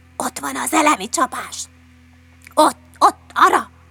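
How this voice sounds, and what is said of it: Whispering. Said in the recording (Hungarian): “suttogták”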